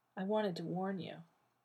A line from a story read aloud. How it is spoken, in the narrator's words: John said softly into his ear